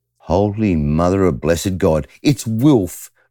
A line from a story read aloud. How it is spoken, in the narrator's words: Irk exclaimed